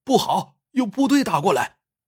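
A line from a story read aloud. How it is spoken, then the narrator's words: Shouting. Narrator (Chinese): 喊声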